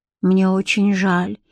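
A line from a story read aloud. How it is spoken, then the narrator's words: Sighing. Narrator (Russian): вздохнула Бренна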